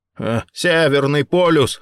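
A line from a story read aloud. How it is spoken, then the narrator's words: Snorting. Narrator (Russian): хмыкнул Рэй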